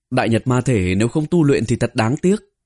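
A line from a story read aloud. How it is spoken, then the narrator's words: Nervous sneering. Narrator (Vietnamese): Tả Mạc trong lòng có chút sợ hãi, cười mỉa nói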